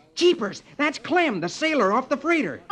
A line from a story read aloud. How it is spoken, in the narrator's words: Rusty exclaims